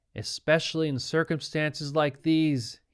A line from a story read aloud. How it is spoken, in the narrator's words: he said